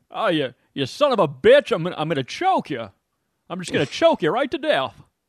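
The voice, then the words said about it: Imitates another person's voice. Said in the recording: “that hell of an impression ... That's a good Jimmy Stewart, man.”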